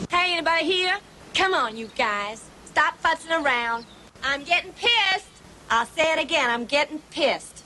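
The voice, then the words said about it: Bad fake southern accent. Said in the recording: “that is the worst southern accent I've ever heard in my life... We do not talk like that.”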